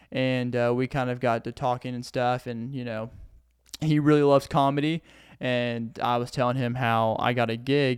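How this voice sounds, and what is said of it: Southern US accent. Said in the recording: “my southern accent really, I didn't even know I had a southern accent, but it kicked out just then ... I had a really thick accent”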